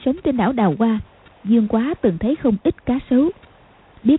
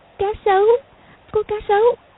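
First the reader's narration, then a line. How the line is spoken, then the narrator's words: Trembling. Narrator (Vietnamese): Công Tôn Lục Ngạc run rẩy nói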